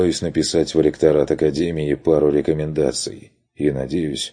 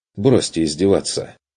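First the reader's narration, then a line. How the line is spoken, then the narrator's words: Irritated snap. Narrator (Russian): огрызнулся он раздраженно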